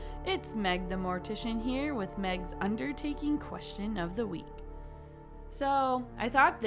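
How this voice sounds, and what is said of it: Usual voice. Nothing is said of it.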